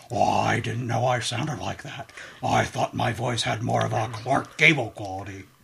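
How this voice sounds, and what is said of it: Richard Nixon impression, Futurama style. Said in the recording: “That's my trigger for Nixon. I go. I got that from Futurama. It's not so much a Nixon impersonation. It's a Billy West impersonating Nixon.”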